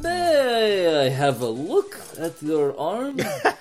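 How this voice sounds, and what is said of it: Dracula-like accent. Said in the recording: “Have you heard the accent of yours? It's totally Dracula.”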